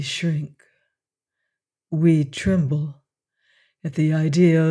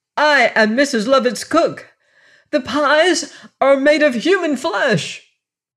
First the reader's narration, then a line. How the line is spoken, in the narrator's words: cried